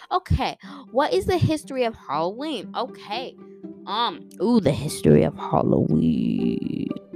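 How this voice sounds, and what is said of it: Dark, deep voice. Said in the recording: “Did I say that in a dark, deep voice?”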